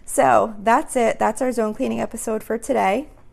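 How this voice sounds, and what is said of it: Strained, fading voice. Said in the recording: “I apologize for my voice. I feel like I'm starting to lose my voice a little bit.”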